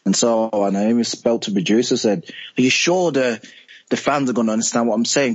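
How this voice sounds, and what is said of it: Birmingham English accent. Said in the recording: “I'm from Birmingham, so I've got like a different accent from the rest of the cast members ... it's just my accent”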